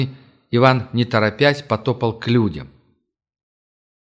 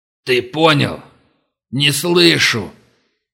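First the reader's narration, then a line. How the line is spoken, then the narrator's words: Growling. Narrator (Russian): рычал он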